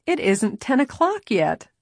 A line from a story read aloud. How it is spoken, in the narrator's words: Nancy laughed